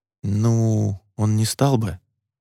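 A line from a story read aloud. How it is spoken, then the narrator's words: Embarrassed mumble. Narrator (Russian): промямлил Роман, чувствуя себя идиотом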